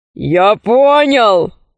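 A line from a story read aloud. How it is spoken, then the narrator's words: Growling. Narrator (Russian): зарычал он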